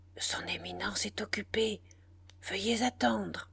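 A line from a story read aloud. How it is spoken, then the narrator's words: Low, barely audible murmur. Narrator (French): d'une voix basse, à peine murmure dans le silence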